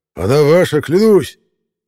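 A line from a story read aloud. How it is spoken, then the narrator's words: Sincere exclamation. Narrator (Russian): воскликнул Ролла с абсолютно искренним видом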